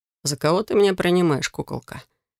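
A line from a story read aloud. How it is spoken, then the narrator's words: Soft question. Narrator (Russian): Мягко поинтересовался он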